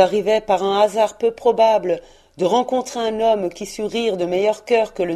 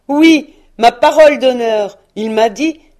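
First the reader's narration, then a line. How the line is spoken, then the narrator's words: Exclaiming. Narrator (French): s'écria le neveu de Scrooge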